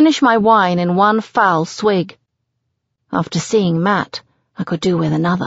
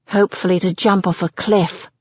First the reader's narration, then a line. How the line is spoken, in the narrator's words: I mutter uncharitably under my breath